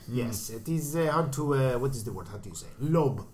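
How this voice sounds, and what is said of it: Put-on accent. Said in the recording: “Please tell me you're not going to do that accent through the whole show.”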